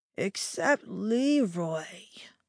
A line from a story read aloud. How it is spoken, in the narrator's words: I slurred